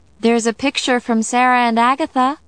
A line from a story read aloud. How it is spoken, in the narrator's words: I called out